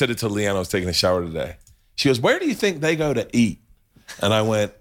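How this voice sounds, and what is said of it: Usual voice. Nothing is said of it.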